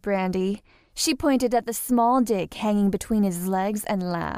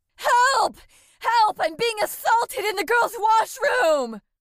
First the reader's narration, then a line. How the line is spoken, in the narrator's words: he screamed as loud as he could